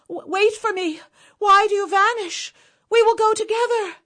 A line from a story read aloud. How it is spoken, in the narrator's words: She cried out